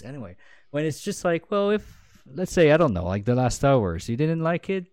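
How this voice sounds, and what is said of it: Quebec French accent in English. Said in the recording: “Why do you have your accent? ... I'm a Canadian baguette. And you might think I have an accent when I speak English ... French Quebec”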